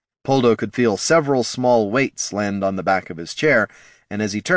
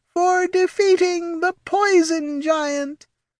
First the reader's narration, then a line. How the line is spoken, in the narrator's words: Red Squirrel squeaked again, and the Domovoy chorused